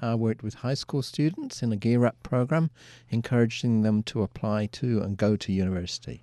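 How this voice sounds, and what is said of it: Mixed British and Australian accent. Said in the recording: “accent does not seem Vermont ... it's a mixture. My accent is part British and part Australian. But since moving to Vermont, it's shifted to be more British.”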